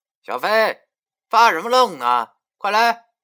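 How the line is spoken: Calling out. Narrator (Chinese): 文叔叫我，他对我喊道

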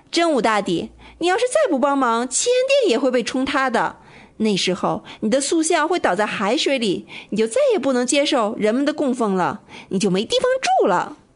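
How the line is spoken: Reckless shouting. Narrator (Chinese): 我不管不顾地嚷起来

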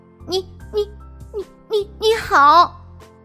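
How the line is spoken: Stammering greeting. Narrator (Chinese): 我结结巴巴的和他打招呼说

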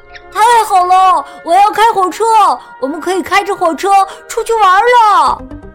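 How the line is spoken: Excited shouting. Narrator (Chinese): 他激动的大喊

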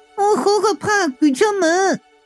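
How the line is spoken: Ghost crying out. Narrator (Chinese): 吊死鬼就叫道

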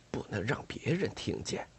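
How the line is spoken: Lowered voice. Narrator (Chinese): 讨厌鬼压低声音说道

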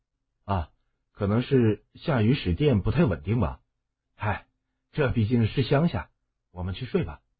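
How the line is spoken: Soft voice. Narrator (Chinese): 只是轻声说道

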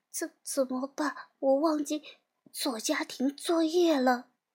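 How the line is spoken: Quiet mutter. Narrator (Chinese): 小羊文乐小声的嘀咕

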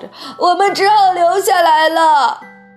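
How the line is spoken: Old woman, loud wailing. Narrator (Chinese): 乔治的姥姥哇哇叫着

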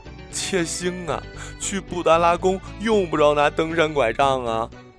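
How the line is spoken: Laughing through a door. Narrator (Chinese): 他隔着门缝笑着

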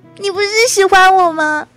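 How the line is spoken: Crying shout. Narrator (Chinese): 还哭着喊说

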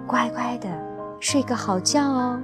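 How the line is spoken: Soft, gentle. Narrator (Chinese): 布朗太太轻声地说

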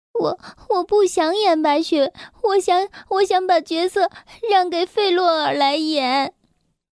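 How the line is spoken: Crying, stammering. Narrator (Chinese): 我哭了，结结巴巴的说

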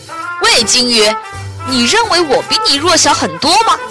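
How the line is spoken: Calling out. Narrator (Chinese): 他又对鲸鱼喊道

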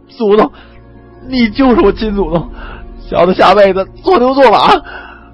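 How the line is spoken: Emotional, sobbing. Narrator (Chinese): 二鬼子翻译激动的哭出声来

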